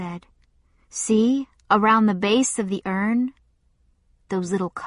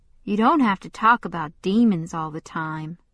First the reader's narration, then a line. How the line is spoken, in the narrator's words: said sullenly